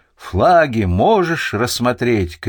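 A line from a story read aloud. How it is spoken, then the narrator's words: Shout. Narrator (Russian): крикнул великий Доместик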